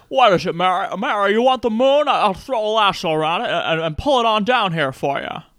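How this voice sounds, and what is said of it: Jimmy Stewart impression, side-mouth talking. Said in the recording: “your Jimmy Stewart impression ... It's a lot of side mouth talking ... You're terrific with impressions.”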